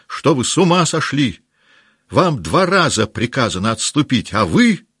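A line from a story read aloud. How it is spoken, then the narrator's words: Breathless shouting. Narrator (Russian): Он запыхавшимся голосом кричал ему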